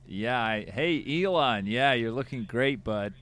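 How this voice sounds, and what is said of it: Put-on American accent. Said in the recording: “we're going to need to practice American accents. I think, already has one in the chamber. Do you want to give us a taste of an American accent ... Yeah, that's good. That's great. Good.”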